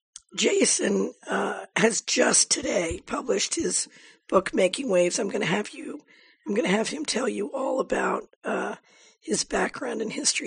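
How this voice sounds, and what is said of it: Hoarse voice from laryngitis. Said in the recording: “I apologize for my laryngitis”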